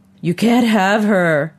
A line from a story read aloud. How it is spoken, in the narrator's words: her father cried